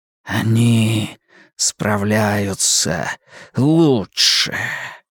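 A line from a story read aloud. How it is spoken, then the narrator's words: Whispered. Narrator (Russian): прошептал вампир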